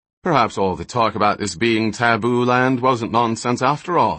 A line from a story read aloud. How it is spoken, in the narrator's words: suggested Flick dryly